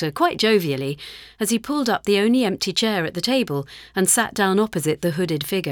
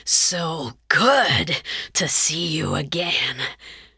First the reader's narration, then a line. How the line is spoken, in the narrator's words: he hissed